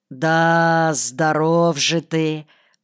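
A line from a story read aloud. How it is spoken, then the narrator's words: Friendly drawl. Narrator (Russian): протянул Василий, но в его тоне не было ничего обидного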